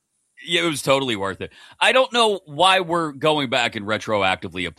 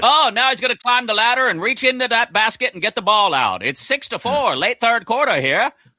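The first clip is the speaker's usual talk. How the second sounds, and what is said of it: Old-timey radio announcer voice. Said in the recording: “Do the rest of the show in that voice ... Old timey radio voice ... nailed it”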